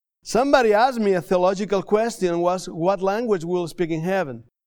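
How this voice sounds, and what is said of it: Non-native English accent. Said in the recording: “help me with the English. I want to apologize for my English ... my accent”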